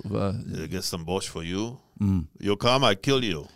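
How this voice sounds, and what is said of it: Cartoonish put-on Russian accent. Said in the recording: “That's not bad. But you think of those cartoons, don't you? ... Russian accent”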